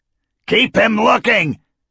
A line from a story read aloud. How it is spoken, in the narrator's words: Varric shouted